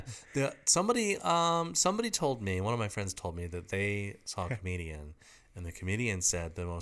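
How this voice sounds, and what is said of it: Usual voice. Nothing is said of it.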